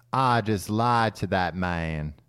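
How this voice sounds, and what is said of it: Kevin Spacey impression, southern drawl. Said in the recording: “in a southern drawl ... a very good Kevin Spacey doing a bad southern accent”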